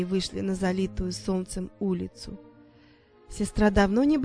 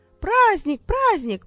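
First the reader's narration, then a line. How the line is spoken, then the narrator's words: Joyful shout. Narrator (Russian): радостно закричала Кинза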